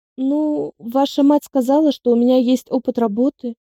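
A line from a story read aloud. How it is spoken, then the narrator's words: Unsure mumble. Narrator (Russian): неуверенно промямлила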